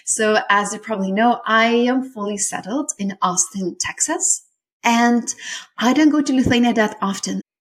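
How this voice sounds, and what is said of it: Lithuanian accent in English. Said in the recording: “I have an accent ... I come from this small place in Europe called Lithuania ... where is this accent from?”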